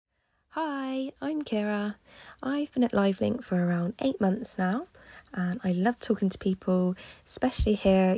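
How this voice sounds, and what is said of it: Bristol English accent. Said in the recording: “as you might be able to tell from my accent, I am from Bristol”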